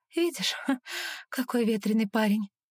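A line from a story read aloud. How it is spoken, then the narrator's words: Smiling, holding back sobs. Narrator (Russian): Улыбаюсь, когда на самом деле хочется рыдать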